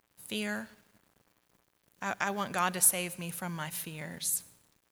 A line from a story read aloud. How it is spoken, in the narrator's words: another shy individual, almost in a whisper, said